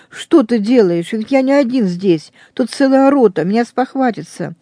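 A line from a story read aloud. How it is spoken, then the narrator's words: Pleading. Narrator (Russian): я, взмолившись хозяину, говорю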